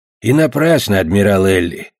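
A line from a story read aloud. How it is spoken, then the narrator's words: Grumbling dog. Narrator (Russian): проворчал пес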